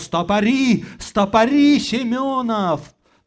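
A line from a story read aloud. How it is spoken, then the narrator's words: Shouting. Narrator (Russian): Зотов крикнул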